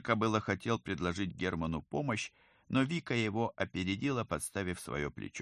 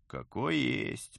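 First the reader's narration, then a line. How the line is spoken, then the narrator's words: Grumbled. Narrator (Russian): проворчал он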